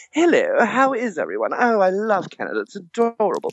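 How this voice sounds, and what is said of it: Exaggerated prissy British accent. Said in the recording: “I immigrated from Britain and I had a little faggy accent.”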